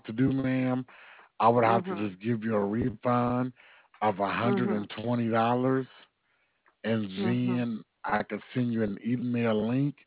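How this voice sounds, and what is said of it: Alabama Southern US accent. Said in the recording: “because of your accent? Are you in Virginia? ... No, I'm in Montgomery, Alabama.”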